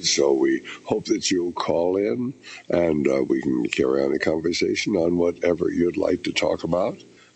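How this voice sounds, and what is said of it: Voice not sounding good. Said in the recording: “you can hear my voice isn't very good”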